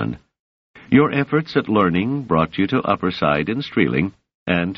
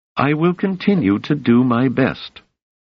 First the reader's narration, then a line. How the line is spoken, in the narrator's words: said Doris stiffly